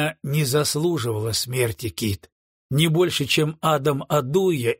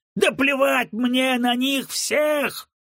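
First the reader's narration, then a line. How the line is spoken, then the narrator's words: Roaring. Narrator (Russian): взревел Джессоп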